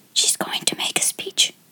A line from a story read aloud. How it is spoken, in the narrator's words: whispered one of the girls